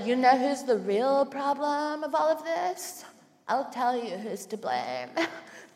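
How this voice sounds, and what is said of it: Imitates a straight white woman's voice. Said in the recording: “do you like my impression of straight white women? ... it actually just sounds like me.”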